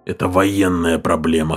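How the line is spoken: Hoarse. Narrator (Russian): хрипло сказал О'Доннелл

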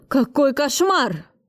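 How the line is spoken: Terrified yell. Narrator (Russian): завопил Кравцов с ужасом в глазах

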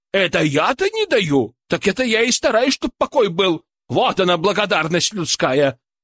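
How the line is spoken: Offended snapping retort. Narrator (Russian): Обиженно огрызнулась Матрона

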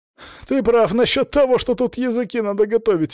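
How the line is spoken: Exhaled words. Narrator (Russian): выдохнул Гена

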